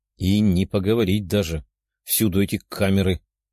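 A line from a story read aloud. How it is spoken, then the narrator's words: Grumble. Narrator (Russian): проворчала Лиза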